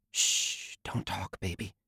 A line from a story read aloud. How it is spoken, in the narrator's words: she whispered